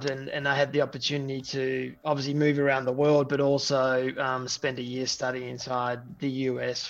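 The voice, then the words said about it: Australian accent. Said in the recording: “if you can hear from the accent, uh, I'm Australian by birth”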